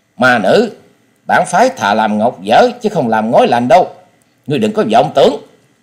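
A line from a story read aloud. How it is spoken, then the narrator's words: Angry reply mid-fight. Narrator (Vietnamese): Đồng Bách Nhất Kiếm Tây Môn Tuấn vừa phải đối phó với bốn nam nữ kiếm thủ, vừa giận dữ đáp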